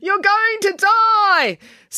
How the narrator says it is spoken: her inner voice was still yelling

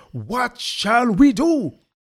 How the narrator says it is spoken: When they were pricked to their heart, they cried out

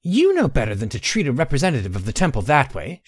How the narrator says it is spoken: she snapped

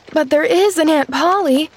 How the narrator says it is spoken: demanded the child, anxiously

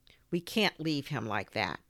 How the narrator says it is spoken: Robin said

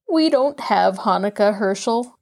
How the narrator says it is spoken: one of them answered sadly

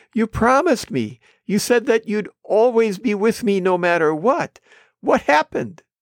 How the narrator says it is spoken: The man whined

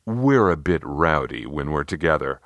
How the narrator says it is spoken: Bruce said quietly

